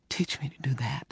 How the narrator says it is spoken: she whispered

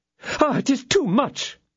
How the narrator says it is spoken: exclaimed her ladyship

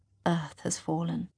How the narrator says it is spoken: I whisper

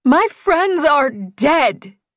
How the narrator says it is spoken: she yelled

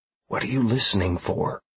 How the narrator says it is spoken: I asked as quietly as I could

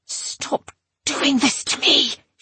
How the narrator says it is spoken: was hissing

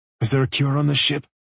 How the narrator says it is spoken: he whispered

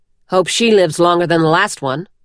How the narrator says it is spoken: the woman grumbled

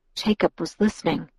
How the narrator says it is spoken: I whispered

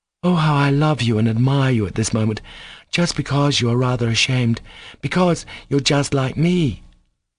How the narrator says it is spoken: cried Kolya in positive ecstasy

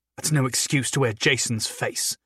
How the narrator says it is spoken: Sophie snarled

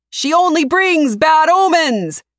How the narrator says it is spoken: Another yells

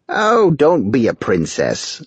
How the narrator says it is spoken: Naraka snapped

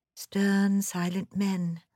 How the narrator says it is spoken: I murmured to myself in an ecstasy

